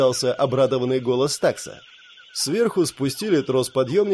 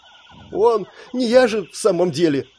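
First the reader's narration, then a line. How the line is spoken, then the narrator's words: Mumbled through tears. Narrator (Russian): сквозь слезы пробормотала Роксина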